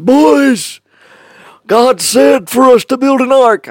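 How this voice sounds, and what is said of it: Put-on character voice. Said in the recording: “I don't know why I'm doing that voice, but that's what he's like.”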